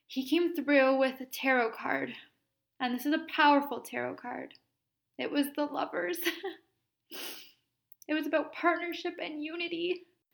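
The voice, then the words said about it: Tearful, emotional crying voice. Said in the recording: “I have tears in my eyes. I'm sure you can hear it in my voice. ... I'm crying right now as I say this.”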